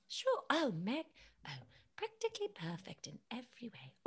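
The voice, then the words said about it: British Mary Poppins-style voice. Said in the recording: “Do you want me to be in a British accent? ... Can you do like Mary Poppins? ... that's so good.”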